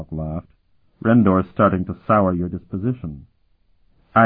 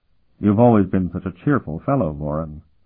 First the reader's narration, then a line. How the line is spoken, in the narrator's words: Sparhawk said dryly